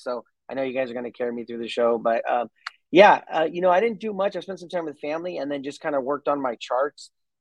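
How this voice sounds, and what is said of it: Strained, low-energy voice. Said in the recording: “I might be losing my voice. So a little bit low energy”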